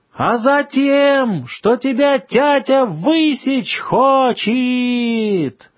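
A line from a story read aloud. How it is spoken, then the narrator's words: Hurried shout. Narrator (Russian): поспешно прокричал первый голос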